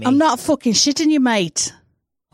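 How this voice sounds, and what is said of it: Put-on English accent. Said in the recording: “such a good English accent”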